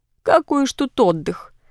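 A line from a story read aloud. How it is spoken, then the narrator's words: Old woman's sad sigh. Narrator (Russian): Старушка вздохнула грустно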